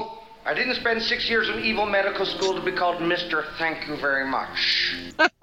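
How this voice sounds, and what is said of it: Villainous comedic character voice. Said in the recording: “Dr. Evil voice ... that's Dr. Evil”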